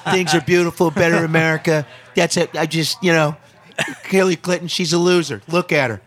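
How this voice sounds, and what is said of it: Donald Trump impression. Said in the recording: “Do you do Trump? ... I do. Sometimes I do. ... That's not bad. ... No, it's not bad.”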